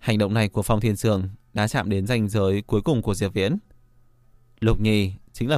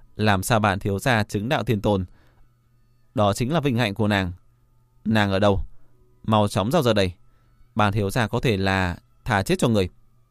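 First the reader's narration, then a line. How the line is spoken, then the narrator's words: Loud laughing voice. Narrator (Vietnamese): Phong Thiên Dương cười lớn nói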